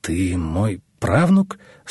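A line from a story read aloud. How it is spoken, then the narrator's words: Strained, forced words. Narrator (Russian): с трудом выдавил Руслан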